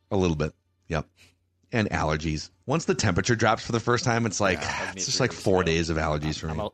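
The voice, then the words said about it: Strained, failing voice. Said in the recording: “My voice is hanging by a thread here.”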